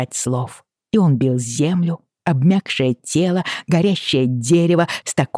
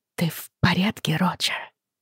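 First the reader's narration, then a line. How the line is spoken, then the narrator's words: Anxious whisper. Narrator (Russian): тревожно зашептала Бриана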